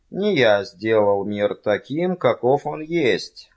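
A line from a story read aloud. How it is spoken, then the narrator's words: Plain. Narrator (Russian): сказал он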